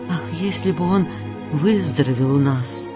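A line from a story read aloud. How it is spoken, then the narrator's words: Quiet conversation. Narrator (Russian): Садок и Анна тихо говорили друг другу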